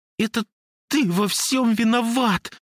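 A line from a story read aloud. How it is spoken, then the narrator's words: Sobbing squeak, choked anger. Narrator (Russian): всхлипывая, пропищала она, словно гнев сдавливал ей горло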